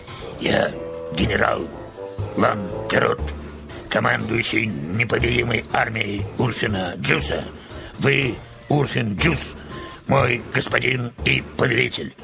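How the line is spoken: Hoarse but clear wooden voice. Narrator (Russian): Деревянная фигура хрипло, но четко повторила

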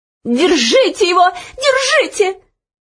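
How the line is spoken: Shrill scream. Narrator (Russian): визгливо закричала ей вслед Анидак

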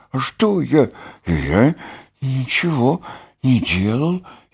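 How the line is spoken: Frightened whisper. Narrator (Russian): испуганно прошептал окончательно проснувшийся Бараш

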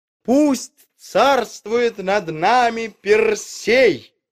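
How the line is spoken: Crowd shouting. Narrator (Russian): закричали они

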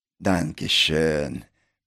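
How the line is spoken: Tearful grateful indistinct mumble. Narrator (Russian): пробормотал Пин что-то неразборчиво, смахивая слезу благодарности

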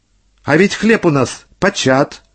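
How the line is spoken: Plain. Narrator (Russian): говорит орел

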